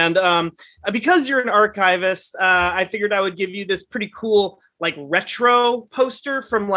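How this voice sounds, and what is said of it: Usual voice. Nothing is said of it.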